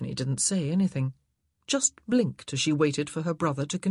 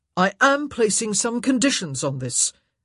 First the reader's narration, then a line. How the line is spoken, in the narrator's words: Antony said loudly